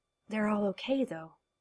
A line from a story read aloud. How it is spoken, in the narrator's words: he said faintly